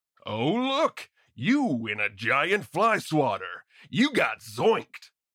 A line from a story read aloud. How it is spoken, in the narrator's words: he shouts out while laughing